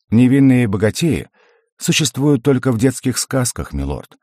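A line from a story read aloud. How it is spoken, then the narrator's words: Wry snort. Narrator (Russian): хмыкнул я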